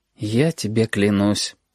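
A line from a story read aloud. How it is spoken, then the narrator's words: Tired. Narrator (Russian): устало сказал Сашка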